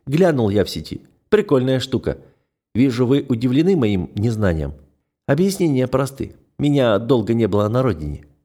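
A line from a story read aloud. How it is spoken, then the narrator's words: Plain. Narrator (Russian): сказал он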